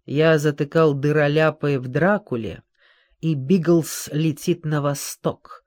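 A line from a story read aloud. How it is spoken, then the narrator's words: Calm reply. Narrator (Russian): спокойно ответил он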